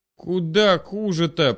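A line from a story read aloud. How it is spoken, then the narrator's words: Groan. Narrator (Russian): простонал Макс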